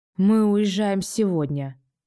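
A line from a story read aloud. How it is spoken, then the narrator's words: Hoarse. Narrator (Russian): хриплю я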